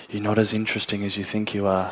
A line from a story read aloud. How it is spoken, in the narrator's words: This woman just whispered in my ear